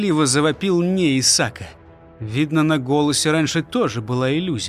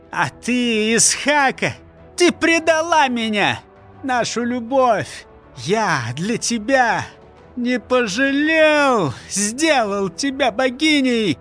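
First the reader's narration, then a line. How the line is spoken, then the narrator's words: Comical squeaky voice. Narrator (Russian): Пищал тот, пожалуй, смешно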